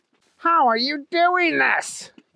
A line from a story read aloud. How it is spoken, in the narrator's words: yelled Trent